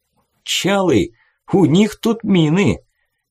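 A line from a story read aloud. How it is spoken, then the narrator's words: Cheerful, excited stranger. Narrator (Russian): Весело сообщил кто-то радостный и незнакомый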